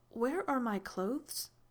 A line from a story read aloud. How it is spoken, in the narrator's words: Odessa laughed under her breath